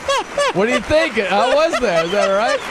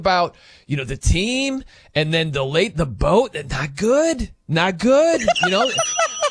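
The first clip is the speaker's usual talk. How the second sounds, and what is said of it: Imitates another person's voice. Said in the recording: “That's pretty good. You got the mannerisms down ... I've never been impersonated.”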